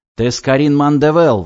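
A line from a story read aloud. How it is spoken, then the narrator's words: Woman shouting. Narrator (Russian): выкрикнула женщина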